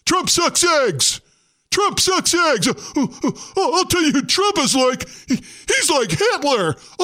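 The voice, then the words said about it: Mock awards acceptance-speech voice. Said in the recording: “my impersonation embodying most of this year's acceptance speeches”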